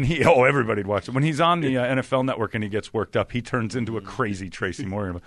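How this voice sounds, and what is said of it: Usual voice. Nothing is said of it.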